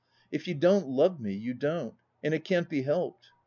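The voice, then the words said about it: Low, trembling voice. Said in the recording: “in a low, tremulous accent”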